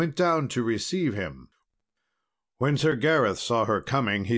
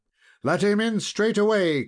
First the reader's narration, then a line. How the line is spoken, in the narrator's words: cried she